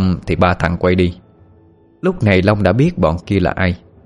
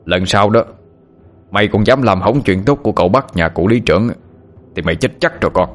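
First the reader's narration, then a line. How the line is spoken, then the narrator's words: Harsh menacing threat. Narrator (Vietnamese): Hai kẻ kia gằn giọng hăm dọa Long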